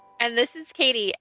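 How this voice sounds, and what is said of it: Deliberately upbeat, cheerful voice. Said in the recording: “I said that in my most upbeat voice”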